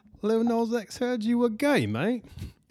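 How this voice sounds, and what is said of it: Attempted British accent. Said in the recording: “I don't know if that's a good British accent.”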